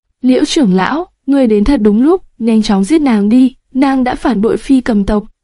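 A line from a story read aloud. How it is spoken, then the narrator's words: Loud laughing voice. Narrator (Vietnamese): hắn cười lớn nói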